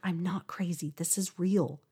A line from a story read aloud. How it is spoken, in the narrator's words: I whispered